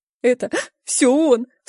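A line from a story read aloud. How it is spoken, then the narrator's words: Sobbing. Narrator (Russian): всхлипнул Женька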